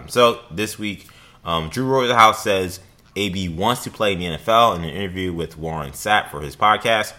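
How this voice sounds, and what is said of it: Tired, weary voice. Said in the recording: “If it sounds like I'm getting tired of it, it's probably because I am. You can probably hear it in my voice.”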